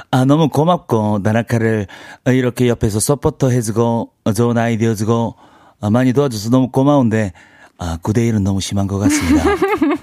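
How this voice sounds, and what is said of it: Impression of the character Tanaka. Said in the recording (Korean): “다나카 성대모사를 한번 말씀해 주시겠나요?”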